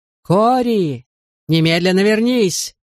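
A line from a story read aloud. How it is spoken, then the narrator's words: Shouted, hopeful. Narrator (Russian): закричал мэр, как будто верил в то, что его крик мог возыметь действие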